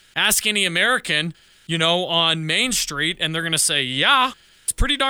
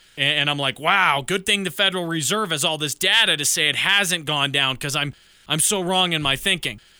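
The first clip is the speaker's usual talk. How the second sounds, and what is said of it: Sarcastic tone. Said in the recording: “Hopefully you can tell the sarcasm in my voice.”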